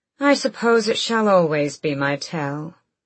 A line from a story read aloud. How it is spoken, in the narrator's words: Lysandra said, her voice near identical to Fenris's drawl